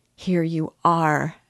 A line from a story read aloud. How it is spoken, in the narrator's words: she began, faltering with joy